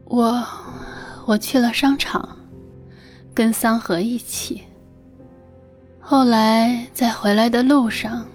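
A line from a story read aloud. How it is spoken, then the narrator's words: Dazed nightmare murmur. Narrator (Chinese): 冷翠仿佛一直沉溺在梦魇里，他喃喃的说道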